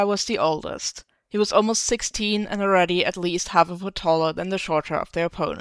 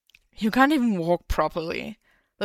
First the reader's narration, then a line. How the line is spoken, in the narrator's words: the taller of the 2 men scoffed, leaning down to gloat